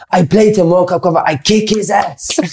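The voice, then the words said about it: Imitated weird German accent. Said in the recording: “He had this weird accent ... it's a mad German accent”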